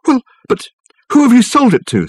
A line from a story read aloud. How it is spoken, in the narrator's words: spluttered Michael